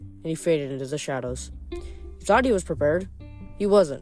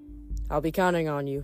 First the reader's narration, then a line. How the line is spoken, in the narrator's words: Nico said